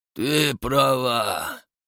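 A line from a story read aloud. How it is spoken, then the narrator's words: Gloomy reply. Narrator (Russian): ответил он мрачно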